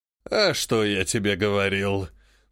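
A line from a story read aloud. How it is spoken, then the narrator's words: Snorting vulture. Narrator (Russian): фыркнул стервятник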